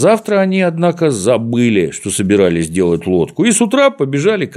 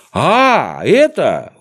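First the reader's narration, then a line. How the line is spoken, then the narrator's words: Exclaimed. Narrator (Russian): воскликнул Козлик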